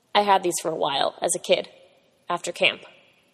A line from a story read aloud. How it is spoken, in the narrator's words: He said calmly